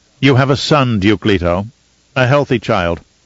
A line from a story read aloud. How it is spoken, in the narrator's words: Mohiam said curtly